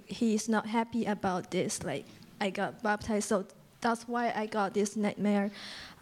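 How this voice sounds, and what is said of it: Non-native English accent. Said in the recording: “Please forgive me my English accent”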